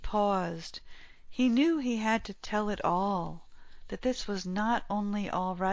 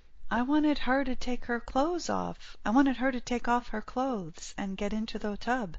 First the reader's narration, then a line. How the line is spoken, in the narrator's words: he explained quickly